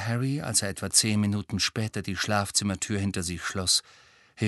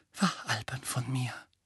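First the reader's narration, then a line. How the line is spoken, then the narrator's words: Murmured again. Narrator (German): murmelte sie noch einmal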